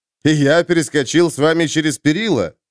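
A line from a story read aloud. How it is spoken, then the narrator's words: Laughing. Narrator (Russian): засмеялся Доигни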